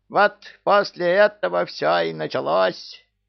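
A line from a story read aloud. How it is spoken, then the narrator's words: Screeching parrot. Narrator (Russian): завопил попугай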